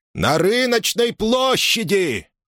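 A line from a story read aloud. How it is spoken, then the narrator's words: Yelling. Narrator (Russian): завопил он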